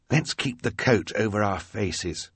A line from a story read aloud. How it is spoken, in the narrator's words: Klaus whispered to his sister